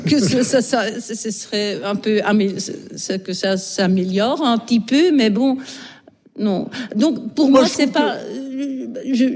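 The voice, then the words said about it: Strong Belgian French accent. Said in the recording (French): “Molière avec l'accent belge ... c'est un fort accent”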